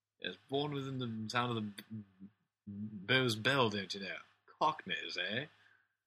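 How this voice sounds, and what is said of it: Mock upper-class English accent. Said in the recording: “that's not actually the Cockney accent ... that's actually more of a sort of upper class.”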